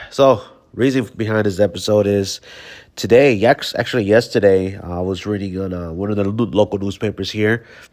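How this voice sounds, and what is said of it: Sick-sounding, altered voice. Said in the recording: “I am a little bit under the weather, so my voice sounds different than it is.”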